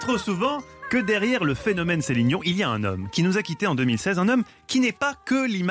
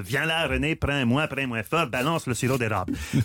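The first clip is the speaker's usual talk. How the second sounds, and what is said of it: Put-on Québécois accent. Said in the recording (French): “faire l'accent québécois. Mais vous l'avez fait.”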